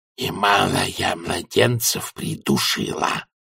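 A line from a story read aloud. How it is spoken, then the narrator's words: Hissing whisper. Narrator (Russian): Просуфлировал он свистящим шепотом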